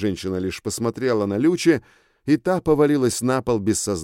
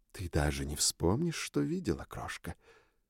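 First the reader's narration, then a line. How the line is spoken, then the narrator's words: Whispered. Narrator (Russian): шепнула Белла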